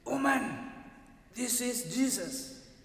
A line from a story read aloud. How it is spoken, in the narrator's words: The workman whispered again more loudly